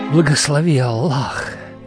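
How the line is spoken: Reverent whisper. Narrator (Russian): прошептал, как когда-то отец

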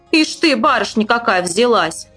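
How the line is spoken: Rude reply. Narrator (Russian): грубо ответила старшая дочь

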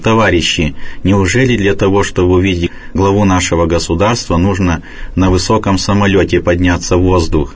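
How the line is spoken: Calm reply. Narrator (Russian): Отец Нафанаил спокойно ответил

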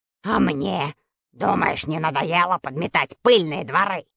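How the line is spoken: Snapping retort. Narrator (Russian): огрызнулся маленький толстый дворник по фамилии Метелкин

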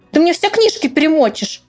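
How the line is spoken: Angry. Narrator (Russian): сердито добавила

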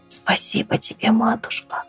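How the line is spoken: Whispered. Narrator (Russian): прошептала

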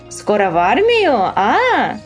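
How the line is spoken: Cheerful exclamation. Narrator (Russian): бодро воскликнет

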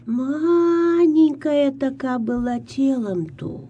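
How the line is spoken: Old woman sighing. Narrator (Russian): Вздохнула старуха

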